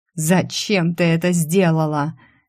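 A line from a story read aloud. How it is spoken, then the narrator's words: Near-growl of helpless frustration. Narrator (Russian): Эйден едва не зарычал от бессилия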